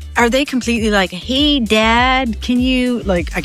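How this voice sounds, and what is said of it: Put-on North American accent. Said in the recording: “I'm trying to do the North American accent.”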